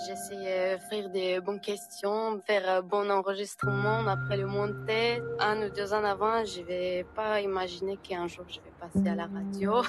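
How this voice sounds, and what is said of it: Slight Armenian accent in French. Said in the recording (French): “vous allez entendre son petit accent. arménienne”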